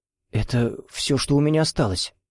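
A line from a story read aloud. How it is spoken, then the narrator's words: Startled, uncertain mumble. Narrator (Russian): От неожиданности охнул, пробормотал неуверенно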